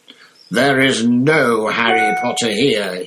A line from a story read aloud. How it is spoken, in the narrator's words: he roared